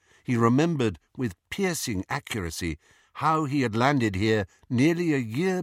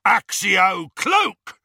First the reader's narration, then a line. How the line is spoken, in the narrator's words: roared one of the Death Eaters